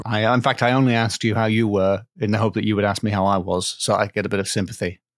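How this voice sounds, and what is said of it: Congested, stuffy-nosed voice. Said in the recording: “I have a cold.”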